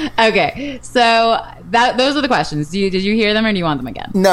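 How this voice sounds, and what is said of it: Usual voice. Nothing is said of it.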